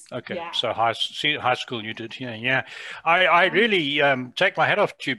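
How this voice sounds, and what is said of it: Southern African British English accent. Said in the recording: “as you can hear from my accent, I haven't been in Canada all my life. I lived in Africa most of my life ... British English as spoken in Southern Africa”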